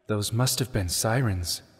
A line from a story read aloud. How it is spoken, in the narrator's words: Sheik murmured